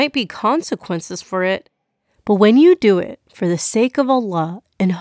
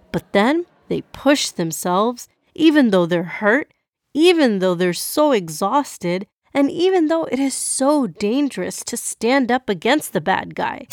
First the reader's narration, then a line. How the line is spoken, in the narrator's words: Jannah exclaimed